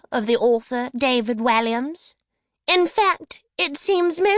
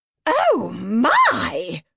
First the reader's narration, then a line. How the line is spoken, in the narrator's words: exclaimed the midwife